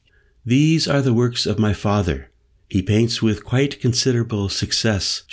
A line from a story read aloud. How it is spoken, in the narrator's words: said evenly